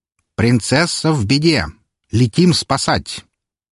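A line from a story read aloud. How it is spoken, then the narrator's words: Loud announcement. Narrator (Russian): громко объявив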